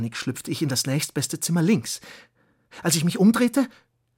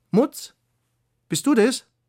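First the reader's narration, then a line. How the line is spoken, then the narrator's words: Pirate witch calling. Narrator (German): die Stimme der Piratenhexe rief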